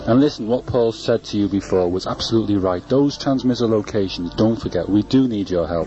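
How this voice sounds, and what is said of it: Serious voice. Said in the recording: “this is me in my serious voice now.”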